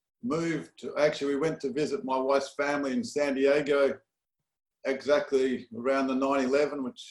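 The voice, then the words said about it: Australian accent. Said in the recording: “your accent reveals that you're not initially from Los Angeles ... My accent's definitely not. Some people say I'm from the south. ... it ends up being Australia, Perth, Australia.”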